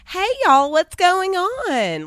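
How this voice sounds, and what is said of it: Southern accent mixed with Valley girl. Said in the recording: “Dallas doesn't really have a Southern accent. ... it's a Southern, right. but with like a, um, with like a Valley girl and like mixed in there. ... That's that's Dallas.”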